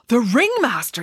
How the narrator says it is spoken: exclaimed Michael

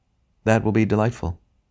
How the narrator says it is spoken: said the ghost in a rather dull voice

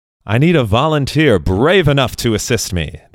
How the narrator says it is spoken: the Extraordinary Edward called out to the audience

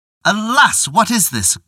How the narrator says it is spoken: cried Tatewaki

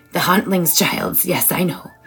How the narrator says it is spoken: Nora hissed with a grin

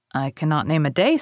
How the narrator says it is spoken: said he

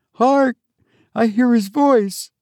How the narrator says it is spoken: She almost sobbed

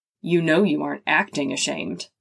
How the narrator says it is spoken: with a soft chuckle, he added

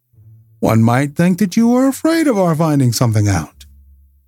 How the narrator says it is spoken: said Holmes coolly

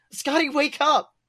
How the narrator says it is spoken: Brenna cries

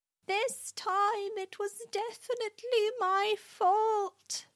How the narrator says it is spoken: he shouted

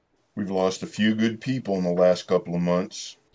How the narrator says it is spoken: Travis said solemnly

